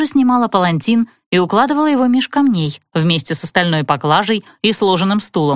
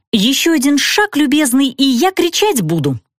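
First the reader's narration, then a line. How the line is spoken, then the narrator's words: Cheerful yet angry. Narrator (Russian): ответила я весело и зло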